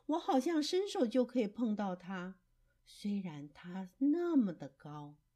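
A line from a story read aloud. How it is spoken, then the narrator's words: Young fox marveling. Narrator (Chinese): 小狐狸感叹着说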